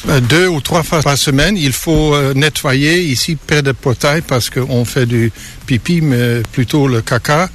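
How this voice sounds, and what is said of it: Slight Dutch accent in French. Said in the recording (French): “il vient de Hollande. C'est pour ça qu'il a son petit accent.”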